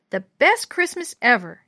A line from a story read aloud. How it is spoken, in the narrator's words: Sharon exclaimed